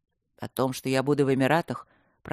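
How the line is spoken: Gloomy. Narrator (Russian): продолжил Люк мрачно

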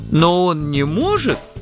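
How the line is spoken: Timid objection. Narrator (Russian): робко возразил Плимутрок

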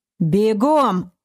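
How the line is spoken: Barked command. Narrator (Russian): рявкнул Олег

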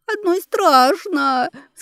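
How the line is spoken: Sobbing. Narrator (Russian): всхлипнула

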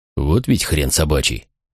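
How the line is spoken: Muttered. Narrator (Russian): пробормотал Макрон

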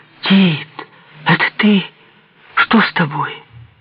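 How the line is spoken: Frightened cry. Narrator (Russian): Вскрикнула испуганно

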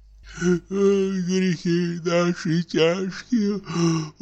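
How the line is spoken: Sighing, near whisper. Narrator (Russian): Опять кто-то вздохнул и даже как будто прошептал

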